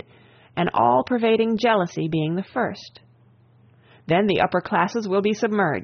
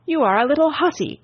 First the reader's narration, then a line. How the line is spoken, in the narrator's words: cried my father